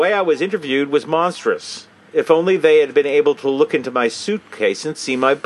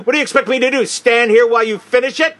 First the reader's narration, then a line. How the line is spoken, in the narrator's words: Very loudly, with shocking insolence